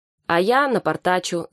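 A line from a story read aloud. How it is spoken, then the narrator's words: Laughing. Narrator (Russian): засмеялся астроном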